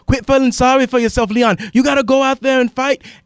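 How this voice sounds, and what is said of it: Put-on British accent. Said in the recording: “my best impersonation of the accent ... That was pretty good ... I work on the British accent”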